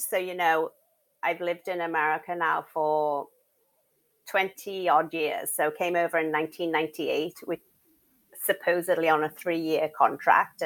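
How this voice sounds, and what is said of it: English accent. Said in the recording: “I am from England... oh, you have the cutest accent. Where's that from? South Africa? ... Ireland? ... no, England.”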